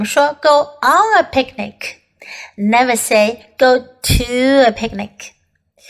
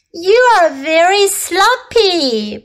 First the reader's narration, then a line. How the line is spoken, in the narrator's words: Puppy cried